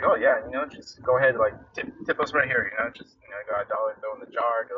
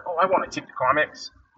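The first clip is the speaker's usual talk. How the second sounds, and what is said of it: Poor imitation of a Boston accent. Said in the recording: “my terrible Boston accent”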